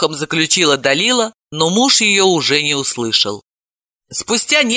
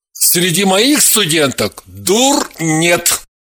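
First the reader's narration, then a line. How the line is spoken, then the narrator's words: Shouted while running off. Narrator (Russian): крикнул Матвей, уже убегая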